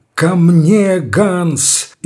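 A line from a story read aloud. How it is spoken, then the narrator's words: Cried out. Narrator (Russian): Герцог вскрикнул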